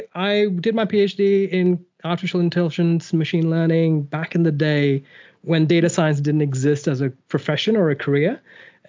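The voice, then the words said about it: Mixed Australian and American accent. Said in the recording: “accent is going to sound very weird for the listeners ... I've spent enough time in the US and Australia to completely muddle up my accent”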